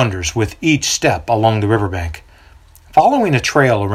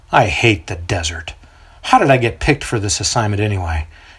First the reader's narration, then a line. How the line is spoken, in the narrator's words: mutters to himself